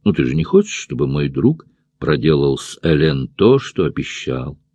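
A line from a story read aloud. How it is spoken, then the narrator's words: Quiet. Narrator (Russian): тихо продолжал Роя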